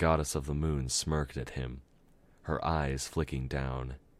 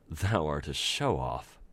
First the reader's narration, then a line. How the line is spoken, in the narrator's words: Luna chuckled darkly